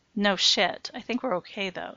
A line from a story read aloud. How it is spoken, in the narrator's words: said Matt, breathing a sigh of relief